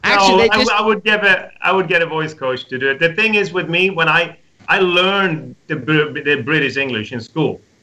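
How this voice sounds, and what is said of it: Light Swedish accent. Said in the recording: “lose the Swedish accent ... a Swedish little accent”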